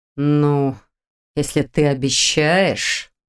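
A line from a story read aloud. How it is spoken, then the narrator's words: Drawled. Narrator (Russian): протянул Долгов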